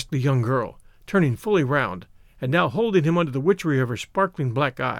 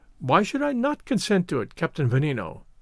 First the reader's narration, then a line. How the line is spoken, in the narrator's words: answered Augustus, with a peal of laughter